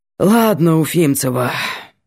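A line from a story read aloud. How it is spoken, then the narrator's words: Breathed out. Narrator (Russian): выдохнул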